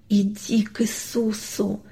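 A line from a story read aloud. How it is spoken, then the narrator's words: Soundless whisper, father. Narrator (Russian): беззвучно прошептал папа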